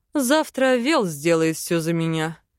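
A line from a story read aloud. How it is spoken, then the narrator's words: Short chuckle. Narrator (Russian): хохотнул Арвен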